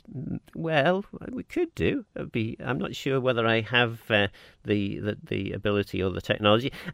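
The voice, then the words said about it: Manx accent. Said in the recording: “I love your accent. So good to hear a proper Manx accent.”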